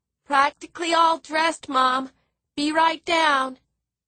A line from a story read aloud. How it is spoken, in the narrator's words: Philip, who was 10 years old and still under the covers, called out sleepily